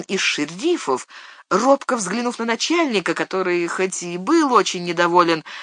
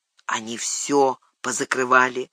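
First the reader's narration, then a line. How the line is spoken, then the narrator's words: Quiet reply. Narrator (Russian): тихо ответил Норкинс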